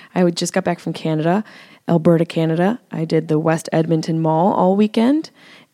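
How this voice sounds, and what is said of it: Strained, tired voice. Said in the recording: “my voice is a little strained, a little tired”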